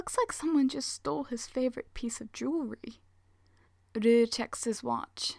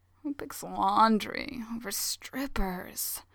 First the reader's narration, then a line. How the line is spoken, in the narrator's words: Hayato mumbles